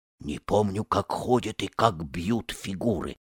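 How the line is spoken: Whisper. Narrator (Russian): шепнул Леопард

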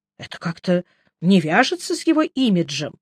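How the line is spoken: Confused explanation. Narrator (Russian): растерянно объяснил я

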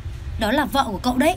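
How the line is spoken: Low exasperated shout. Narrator (Vietnamese): Hướng Lăng Phong không thể nhẫn nhịn thêm nữa, thấp giọng hét

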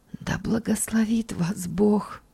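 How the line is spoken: Whispering. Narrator (Russian): шептала она

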